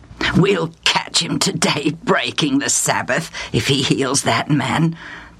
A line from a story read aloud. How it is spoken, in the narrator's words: the Pharisees and scribes muttered to each other